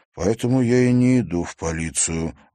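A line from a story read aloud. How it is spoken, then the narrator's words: Sigh. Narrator (Russian): вздохнул Тимофей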